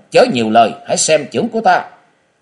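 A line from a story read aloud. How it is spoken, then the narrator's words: Shout. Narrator (Vietnamese): Diêu thủ thư sinh quát lên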